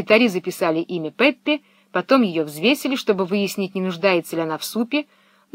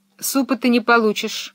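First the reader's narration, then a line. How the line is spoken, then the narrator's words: Stern. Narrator (Russian): строго сказала фрекен Розенблюм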